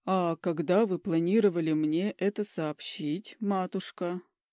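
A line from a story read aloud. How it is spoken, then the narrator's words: Father, deliberately calm question. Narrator (Russian): Нарочито спокойным голосом интересуется папаша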